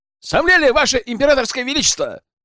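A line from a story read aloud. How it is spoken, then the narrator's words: Shouted. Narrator (Russian): прокричал Богдан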